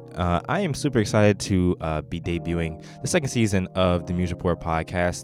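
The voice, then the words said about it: Flat, monotone voice. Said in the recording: “I'm a pretty monotone person”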